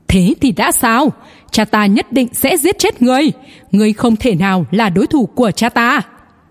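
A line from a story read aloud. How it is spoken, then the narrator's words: Cracked-voice shout. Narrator (Vietnamese): Hắn bỗng nhiên lạc giọng hét lên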